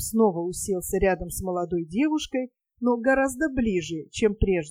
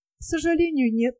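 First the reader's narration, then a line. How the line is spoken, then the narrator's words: Sigh. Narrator (Russian): вздохнула она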